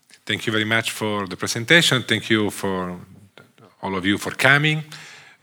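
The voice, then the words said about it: Strong Italian accent. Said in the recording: “I'm Italian. Sorry for my accent that is quite strong. ... my accent is a mafia movie accent.”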